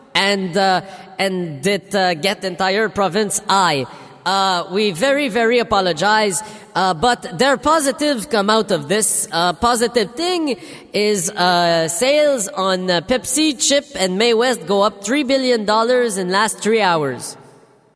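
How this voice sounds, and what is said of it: Coarse Quebecer French accent. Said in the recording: “that really coarse French accent, well, Quebecer French accent”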